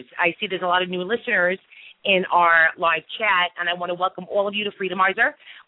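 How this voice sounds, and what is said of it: Brooklyn New York accent. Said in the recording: “if you can tell by my accent, from Brooklyn, New York.”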